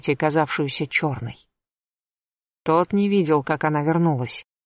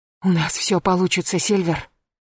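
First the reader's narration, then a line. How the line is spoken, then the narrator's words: Hoarse whisper. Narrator (Russian): хрипло прошептал он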